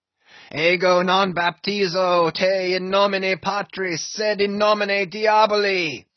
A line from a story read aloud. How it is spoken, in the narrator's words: deliriously howled Ahab